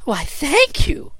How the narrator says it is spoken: cried Fluff

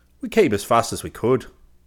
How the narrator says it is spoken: the sergeant said curtly

